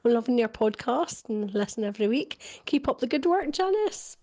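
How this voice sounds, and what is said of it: Stranraer accent. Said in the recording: “that accent, by the way, Stranraer. I just love it. Stranraer, I can't do it, but that's marvellous.”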